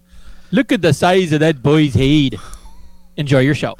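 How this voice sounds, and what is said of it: Put-on Scottish accent. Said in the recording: “that's supposed to be a Scottish accent, you dummy ... should be Irish ... you made fun of me in a Scottish accent”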